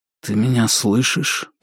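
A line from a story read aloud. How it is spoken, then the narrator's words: Whisper. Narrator (Russian): прошептал он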